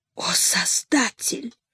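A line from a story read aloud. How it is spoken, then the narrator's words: Whispered prayer. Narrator (Russian): Хуршида Бану зашептала молитву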